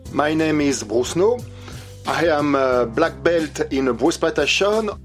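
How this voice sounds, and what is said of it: French accent. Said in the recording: “his fantastic accent, ... is from France”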